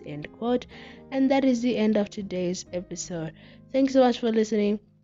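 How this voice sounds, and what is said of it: Odd, unwell-sounding voice. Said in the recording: “weird voice”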